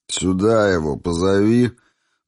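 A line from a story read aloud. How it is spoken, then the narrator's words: Muttered through teeth. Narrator (Russian): процедил бык со свинячьими глазками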